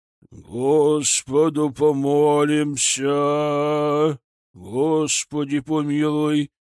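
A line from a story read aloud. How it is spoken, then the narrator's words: Patriarch's deep bass chant. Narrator (Russian): басом выводил сам патриарх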